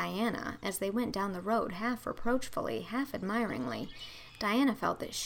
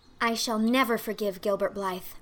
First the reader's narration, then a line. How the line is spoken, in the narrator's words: said Anne firmly